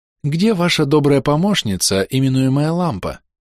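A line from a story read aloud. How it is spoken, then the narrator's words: Soft gentle inquiry. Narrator (Russian): мягко осведомилась гнома Мистри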